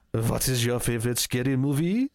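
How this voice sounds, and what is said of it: Ghostface voice with fake French accent. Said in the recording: “maybe Ghostface will even speak French to them on the phone ... that's just an accent. I can't speak French. I can't do a Ghostface impression in French”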